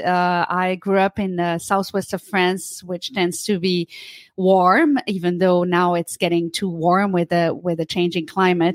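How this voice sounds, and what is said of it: French accent. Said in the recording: “As you can tell from the accent, I grew up in France”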